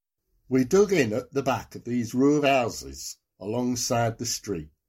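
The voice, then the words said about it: Nottingham accent. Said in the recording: “in your Nottingham accent”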